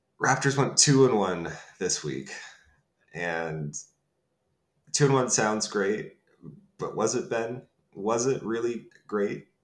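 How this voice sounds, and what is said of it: Nasal, congested voice. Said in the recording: “my voice is a little nasally, a little congested”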